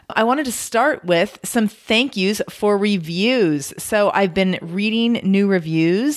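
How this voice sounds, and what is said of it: Husky, not fully recovered voice. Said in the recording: “My voice is not totally recovered, so you can just listen to my sexy radio voice.”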